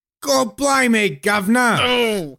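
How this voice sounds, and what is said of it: Put-on Cockney accent. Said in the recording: “Imagine being redless in a Cockney accent.”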